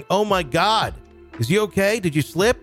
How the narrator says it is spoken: shouting

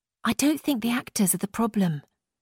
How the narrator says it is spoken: Anna whispered back

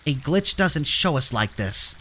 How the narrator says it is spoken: I snapped

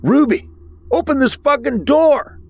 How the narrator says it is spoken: Matthew shouted

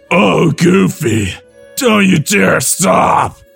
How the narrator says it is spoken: She moans between breaths

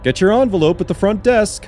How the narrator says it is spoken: he called out with an ill-disguised chuckle

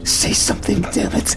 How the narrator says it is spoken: She said, her voice frantic

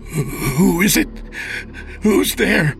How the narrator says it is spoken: Charles begged, praying there would be no response

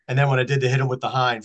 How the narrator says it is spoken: Fred Norris laughed

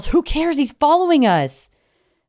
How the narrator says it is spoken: Harry yells

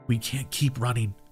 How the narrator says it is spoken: I whispered breathless

